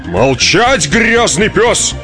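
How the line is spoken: Roaring bellow. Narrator (Russian): взревел полицейский

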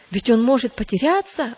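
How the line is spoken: Exclaiming. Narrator (Russian): воскликнул третий

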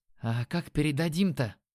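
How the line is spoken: Muttering. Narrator (Russian): пробормотал Димон

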